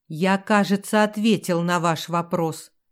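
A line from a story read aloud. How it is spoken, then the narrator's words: Angry mutter. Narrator (Russian): сердито буркнул герцог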